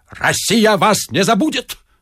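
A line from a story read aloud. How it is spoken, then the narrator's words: Barked. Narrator (Russian): рявкнул Остап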